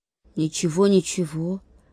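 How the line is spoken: Mutter. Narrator (Russian): пробормотал Гоша

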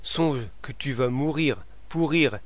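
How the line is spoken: Stammering. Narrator (French): bégaya-t-il

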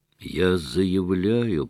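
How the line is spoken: Dry-throated hoarse rasp. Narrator (Russian): прохрипел Гаганов, у него пересохло горло

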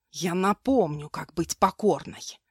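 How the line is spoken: Hiss. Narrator (Russian): Прошипел

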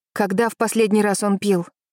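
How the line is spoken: Through gritted teeth. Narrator (Russian): спросил Вениамин сквозь зубы

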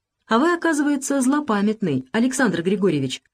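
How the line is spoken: Joking remark. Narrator (Russian): шутливо заметил Залесский

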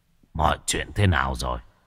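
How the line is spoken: Hoarse voice. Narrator (Vietnamese): Sát tâm cất giọng khàn khàn nói

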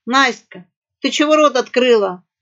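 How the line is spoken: Rat's loud bark. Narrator (Russian): гаркнула крыса

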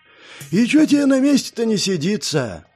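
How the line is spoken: Sigh. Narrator (Russian): вздохнул Гизма

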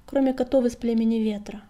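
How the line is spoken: Gloomy correction. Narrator (Russian): мрачно поправил его Огнегриф

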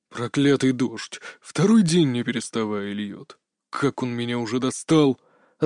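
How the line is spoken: Growling, angry. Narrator (Russian): рыкнул отец

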